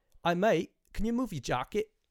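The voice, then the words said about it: Poor put-on British accent. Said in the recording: “let's just try to do the best British accent I can do ... it was worse. It was even worse than that ... it was not good. It was not good.”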